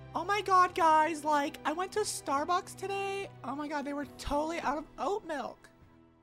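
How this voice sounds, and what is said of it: Stereotyped girly voice. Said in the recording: “How to do a girl voice.”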